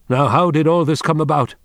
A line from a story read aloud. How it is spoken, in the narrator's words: Wang Lung called out loudly to anyone